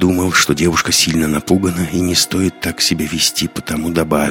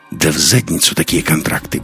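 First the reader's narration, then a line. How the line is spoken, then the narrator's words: Rude reply. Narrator (Russian): грубо ответил Лекс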